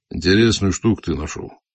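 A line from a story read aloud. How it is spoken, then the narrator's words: Gruff grumble. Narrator (Russian): буркнул генерал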